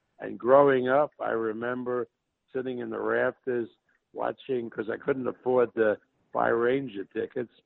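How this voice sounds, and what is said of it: New York Brooklyn accent. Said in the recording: “you can tell by my accent that I'm a New York guy, actually a Brooklyn guy”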